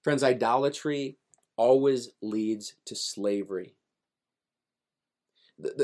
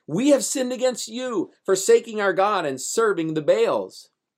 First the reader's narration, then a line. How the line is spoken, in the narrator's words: cried out